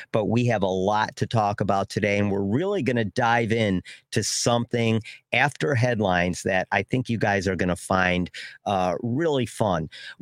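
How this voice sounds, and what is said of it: Congested, cartoonish voice from a cold. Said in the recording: “If I sound like a cartoon character, it's because I got a little bit of the late summer little bit of a cold here, late summer cold. ... if I sound like a little bit of a cartoon character”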